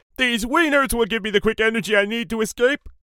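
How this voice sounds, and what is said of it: Terrible Homer Simpson impression. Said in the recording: “terrible Homer impression.”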